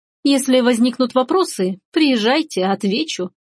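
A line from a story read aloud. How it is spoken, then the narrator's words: Snide. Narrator (Russian): ехидно кивнула Рита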